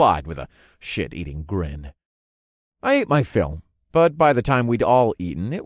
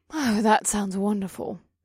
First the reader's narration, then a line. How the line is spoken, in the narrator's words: Eva breathed